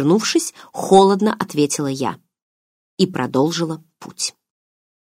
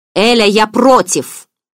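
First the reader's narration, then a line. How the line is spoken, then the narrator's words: Menacing thunderous voice. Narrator (Russian): грозно прогремела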